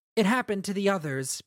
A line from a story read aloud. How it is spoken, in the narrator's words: Pattern said, his voice softer now